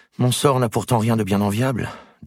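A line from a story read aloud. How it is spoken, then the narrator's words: Sighing. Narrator (French): dit Isabelle en soupirant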